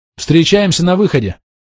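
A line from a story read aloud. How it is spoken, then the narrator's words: Shouted. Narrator (Russian): крикнул Серхио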